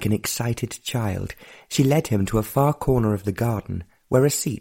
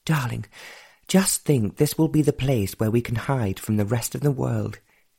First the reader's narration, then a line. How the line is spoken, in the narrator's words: she sighed